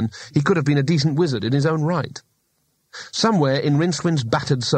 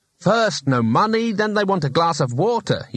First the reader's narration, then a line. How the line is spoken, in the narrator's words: he snapped